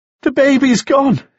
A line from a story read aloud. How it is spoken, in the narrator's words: sobbed